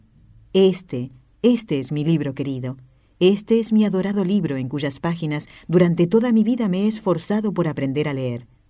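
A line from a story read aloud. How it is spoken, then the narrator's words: Joyful ardent exclamation. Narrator (Spanish): con el rostro radiante de alegría, y cubriéndolo de ardorosos besos, exclamó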